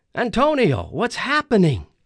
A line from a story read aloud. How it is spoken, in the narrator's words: cried